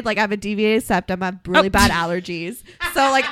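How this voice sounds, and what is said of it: Congested nasal Valley girl voice. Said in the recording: “I'm so congested ... I know I sound congested ... this Valley girl accent that is like super congested ... with the nose hold held”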